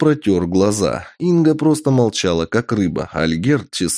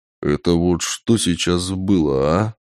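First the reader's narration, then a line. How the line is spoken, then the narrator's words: Quiet. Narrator (Russian): Тихо промолвил Ол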